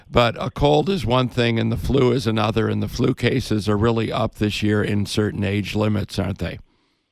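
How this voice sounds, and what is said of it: Slightly raspy voice. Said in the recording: “A little bit of a cold, that's why I'm sounding a little bit raspy.”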